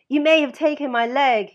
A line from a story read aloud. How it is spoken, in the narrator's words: shouted from the landing